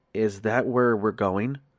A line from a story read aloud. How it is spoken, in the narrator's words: I asked the hitchhiker, my voice quavering with nervousness